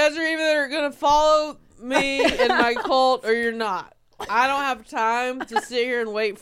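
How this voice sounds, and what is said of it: Usual voice. Nothing is said of it.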